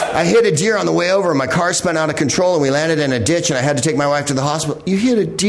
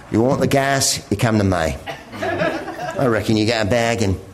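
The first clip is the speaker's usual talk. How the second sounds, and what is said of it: Imitates a movie character's accent. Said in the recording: “accent ... I'm doing Mel Gibson from the movie Mad Max.”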